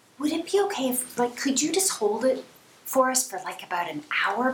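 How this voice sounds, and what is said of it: Sweet, ingratiating voice. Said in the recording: “put on my sweet voice, the one that I use when I really need to get my own way”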